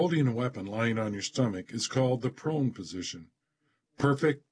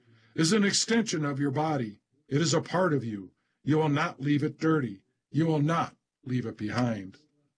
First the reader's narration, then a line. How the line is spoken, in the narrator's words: yells the drill sergeant